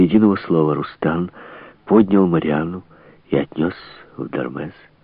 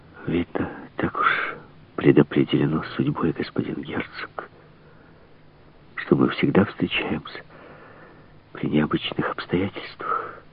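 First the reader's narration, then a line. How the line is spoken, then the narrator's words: Whispered. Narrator (Russian): прошептала она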